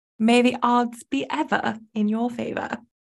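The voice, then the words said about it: Put-on Hunger Games Capitol accent. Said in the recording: “are we doing this whole episode with capital accents?”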